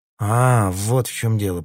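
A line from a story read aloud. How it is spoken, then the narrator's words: Drawl. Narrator (Russian): протянул Питер Марлоу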